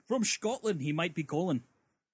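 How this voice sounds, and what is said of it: Put-on Scottish accent. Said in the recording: “you like my Scottish accent?”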